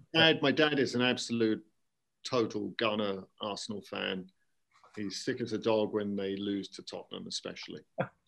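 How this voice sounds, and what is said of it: London English accent. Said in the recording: “you're not a Bristolian. Your accent is certainly not West. I'm from London... You sound like an Arsenal fan should sound, a Gunner.”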